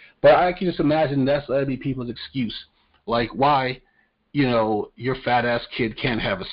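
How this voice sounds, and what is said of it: Usual voice. Nothing is said of it.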